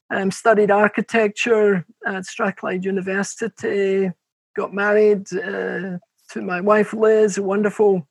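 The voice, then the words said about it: Glaswegian Scottish accent, slightly softened. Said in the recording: “you've always got a Scottish accent ... we're actually from Glasgow, although our accent, because we've travelled so much, has been a bit contaminated”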